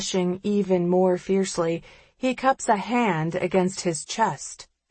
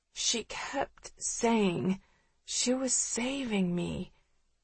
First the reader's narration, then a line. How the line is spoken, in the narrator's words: he says, his voice small and pained